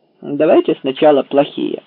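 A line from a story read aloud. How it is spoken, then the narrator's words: Plain. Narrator (Russian): ответил Паркер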